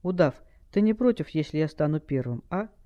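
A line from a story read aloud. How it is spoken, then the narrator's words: Calm question. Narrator (Russian): Скай совершенно спокойно спросил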